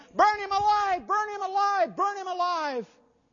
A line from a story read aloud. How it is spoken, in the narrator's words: the shout went up